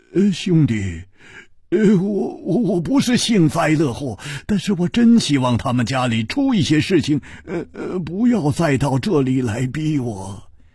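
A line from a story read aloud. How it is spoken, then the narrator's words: Sighing, wry smile. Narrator (Chinese): 他叹了一口气，苦笑着说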